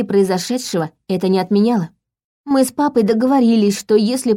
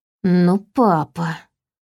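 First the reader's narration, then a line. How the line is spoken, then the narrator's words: Sullen whisper. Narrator (Russian): прошептала я хмуро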